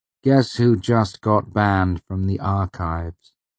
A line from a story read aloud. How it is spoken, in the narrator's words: I said gravely